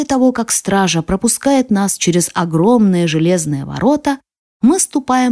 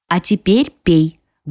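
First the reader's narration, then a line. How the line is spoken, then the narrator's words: Menacing. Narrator (Russian): грозно говорит она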